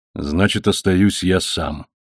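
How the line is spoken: Grim. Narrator (Russian): мрачно продолжал Волтурно

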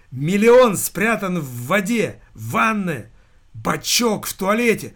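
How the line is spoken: Full-throated yell. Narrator (Russian): заорал во всю глотку могильщик

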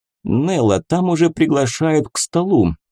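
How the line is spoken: Timid. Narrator (Russian): робко Гал

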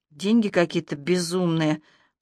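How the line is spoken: Drawn-out, almost plaintive. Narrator (Russian): почти жалобно протянула Ирка

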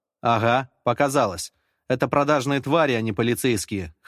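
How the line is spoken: Scoffing. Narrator (Russian): хмыкнул

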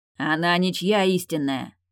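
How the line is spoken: Growling. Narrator (Russian): рыкнул он

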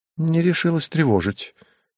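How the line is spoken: Thin plaintive voice. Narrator (Russian): необычно тоненьким голоском жалобно сказала она

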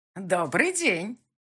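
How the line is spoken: Unnaturally loud little man. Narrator (Russian): сказал человечек неестественно громким голосом

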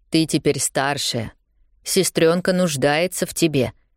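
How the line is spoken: Gentle stepfather. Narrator (Russian): мягко говорит Любе отчим

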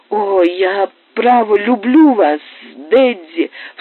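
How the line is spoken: Sobbing. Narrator (Russian): всхлипывала Лу

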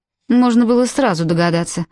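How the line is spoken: Scornful snort. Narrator (Russian): фыркнула Ханна

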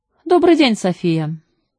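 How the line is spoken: Casual tone. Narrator (Russian): небрежным тоном сказал он

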